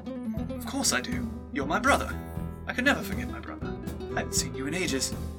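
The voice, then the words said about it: Posh accent. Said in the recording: “that ridiculous posh accent”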